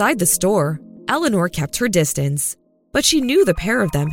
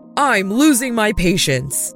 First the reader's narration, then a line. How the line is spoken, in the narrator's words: snapped Glupius